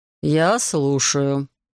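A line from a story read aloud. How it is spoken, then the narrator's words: Beautiful bass voice. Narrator (Russian): красивым басом произнес Евгений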